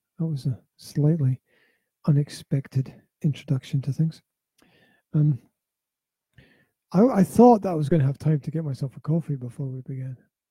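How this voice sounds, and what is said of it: Weak, failing voice. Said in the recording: “as you can hear, my voice is just about to die”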